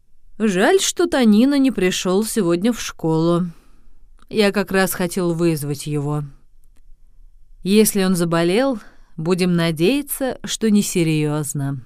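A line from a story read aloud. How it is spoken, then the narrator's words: Teacher speaking with sigh. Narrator (Russian): учитель, вздохнув, сказал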